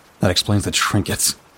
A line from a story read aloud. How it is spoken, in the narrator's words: muttered to myself